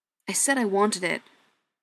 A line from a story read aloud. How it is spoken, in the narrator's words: Ryan said sharply